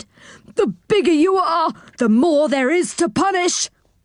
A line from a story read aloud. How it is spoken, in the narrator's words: He just went on shaking and pushing at him and shouted